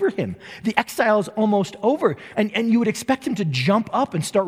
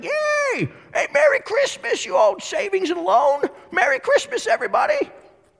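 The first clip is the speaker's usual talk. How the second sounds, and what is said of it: Weak Jimmy Stewart impression. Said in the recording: “my Jimmy Stewart impersonation leaves something to be desired”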